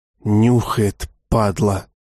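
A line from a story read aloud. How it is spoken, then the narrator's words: Whisper. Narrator (Russian): послышался чей-то шепот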